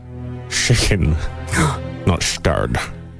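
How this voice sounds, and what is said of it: Sean Connery impression. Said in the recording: “do a good Connolly impression... that's scary. Yeah, that's spookily good”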